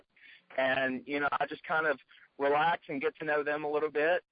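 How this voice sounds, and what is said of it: Tennessee Southern accent. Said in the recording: “I'm from Tennessee... Can't you tell the accent?”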